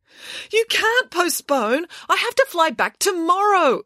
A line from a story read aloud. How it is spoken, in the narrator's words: exclaimed Mirabella